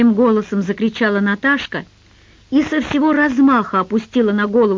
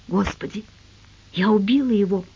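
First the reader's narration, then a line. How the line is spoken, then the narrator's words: Whispered. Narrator (Russian): прошептала Наташка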